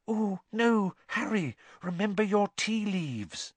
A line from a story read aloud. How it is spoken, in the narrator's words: There was an intake of breath, and whispered